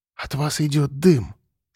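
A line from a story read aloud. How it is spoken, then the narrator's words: Whisper. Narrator (Russian): сказала она шепотом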